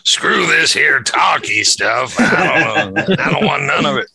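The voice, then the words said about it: Imitates another person's voice. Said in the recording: “that was my Trista impression, ... It's very good.”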